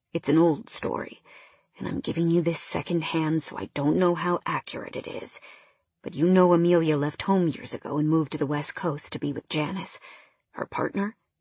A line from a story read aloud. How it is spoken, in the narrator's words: In an equally low voice, he said